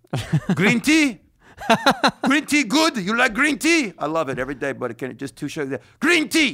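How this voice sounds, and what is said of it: Impression of a bodega worker. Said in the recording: “Do an impression of the guy that works at your bodega ... He just repeats it over and over.”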